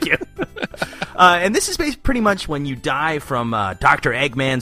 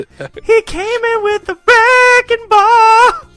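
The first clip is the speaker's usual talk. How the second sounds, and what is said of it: Sung imitation of a pop singer. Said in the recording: “Who sings this song, Miley Cyrus? ... that's the best impression I've ever heard”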